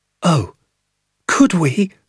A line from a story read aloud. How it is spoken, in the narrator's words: I cried